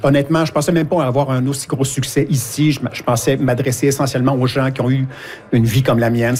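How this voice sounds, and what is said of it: Québécois French accent. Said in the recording (French): “Ils ne reprennent pas nos voix. Là. C'est l'accent québécois.”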